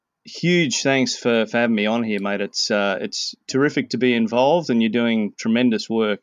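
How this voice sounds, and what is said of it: Australian accent. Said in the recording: “I've got a bit of a funny accent. ... I was born in Australia and raised there, lived there for 37 years”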